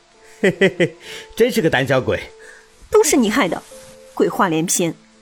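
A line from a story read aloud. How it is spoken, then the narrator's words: Mocking snicker. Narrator (Chinese): 周晓东嘿嘿的笑了起来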